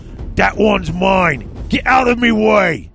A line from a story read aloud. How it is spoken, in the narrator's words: bellowed Dakbad